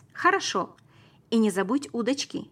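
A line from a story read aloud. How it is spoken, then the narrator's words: Shouted while running. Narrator (Russian): крикнул я на бегу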